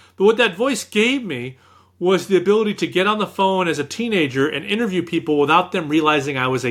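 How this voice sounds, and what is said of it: Usual voice. Nothing is said of it.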